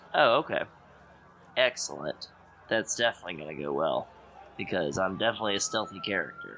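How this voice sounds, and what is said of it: Flat monotone sarcastic delivery. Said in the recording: “I don't like your warning monotone voice right there.”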